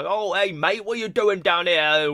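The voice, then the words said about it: Put-on Cockney English accent. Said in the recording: “it turns into like a Cockney English accent ... it starts like I'm in Scotland and I end up in England”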